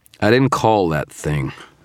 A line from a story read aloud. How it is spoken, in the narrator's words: I said, my voice slurred with fatigue